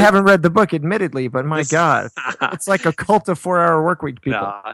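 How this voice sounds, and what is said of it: Usual voice. Nothing is said of it.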